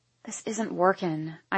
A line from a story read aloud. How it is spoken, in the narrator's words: I mumble